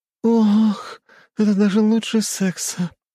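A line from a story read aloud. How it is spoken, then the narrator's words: Blissful moan. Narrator (Russian): простонала она, испытывая счастье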